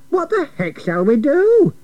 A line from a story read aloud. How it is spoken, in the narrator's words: cried